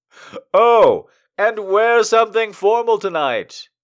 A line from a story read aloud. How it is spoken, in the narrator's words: he yelled